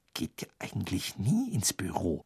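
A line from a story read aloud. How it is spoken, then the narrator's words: Sudden whisper. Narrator (German): flüsterte Hermine plötzlich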